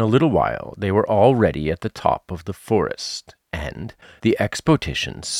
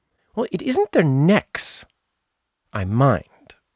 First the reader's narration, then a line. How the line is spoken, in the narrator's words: said Piglet earnestly